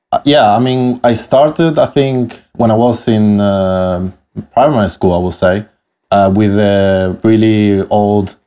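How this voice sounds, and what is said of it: Italian-accented English. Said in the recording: “I love your accent. ... apologies for my accent from the start, but I'm Italian. But I grew up actually in Canary Islands in Spain. ... My accent is what it is”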